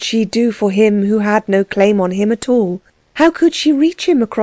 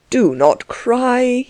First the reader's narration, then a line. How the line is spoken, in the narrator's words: begged in his turn